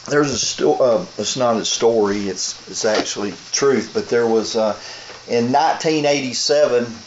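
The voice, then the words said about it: Hoarse, fading voice. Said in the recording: “I'm starting to lose my voice. ... that cold air last night about got me.”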